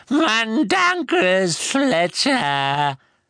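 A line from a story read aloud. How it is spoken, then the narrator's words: Elf croaking. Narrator (German): krächzte der Elf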